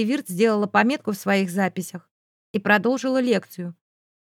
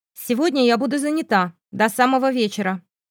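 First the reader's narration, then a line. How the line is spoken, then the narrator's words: Cold. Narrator (Russian): холодным тоном сообщила преподавательница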